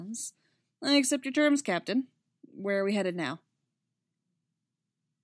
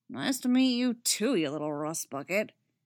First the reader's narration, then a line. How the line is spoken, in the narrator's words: Kanan grumbles